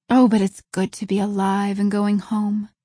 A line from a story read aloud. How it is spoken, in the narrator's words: breathed Anne